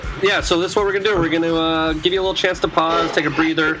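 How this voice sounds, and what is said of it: Swedish or German-sounding accent. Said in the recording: “my shitty Swedish German whatever accent”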